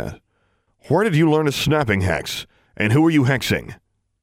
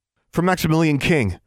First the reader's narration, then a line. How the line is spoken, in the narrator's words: she blurted out with a burst of inspiration